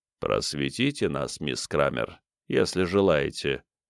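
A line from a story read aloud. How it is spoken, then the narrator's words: Quiet, enveloping voice. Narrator (Russian): сказал он тихим голосом, обволакивающим нервное окончание Ника, словно туман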